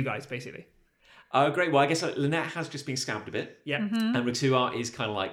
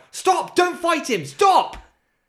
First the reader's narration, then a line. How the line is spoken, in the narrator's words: just going to sort of get into a crouched position and just shout